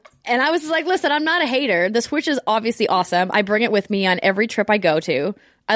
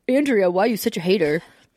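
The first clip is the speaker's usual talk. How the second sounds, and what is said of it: Mocking imitation of online commenters. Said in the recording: “my impression of what you sound like in your internet comments”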